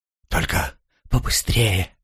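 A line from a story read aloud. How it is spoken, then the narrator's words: Whisper. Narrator (Russian): прошептала та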